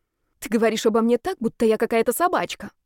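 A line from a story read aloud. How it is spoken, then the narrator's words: Displeased snort. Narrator (Russian): недовольно хмыкнул Ярослав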